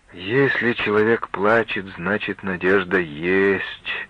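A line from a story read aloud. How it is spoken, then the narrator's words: Mysterious, with deep sigh. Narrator (Russian): загадочно промолвила Дора, глубоко вздохнув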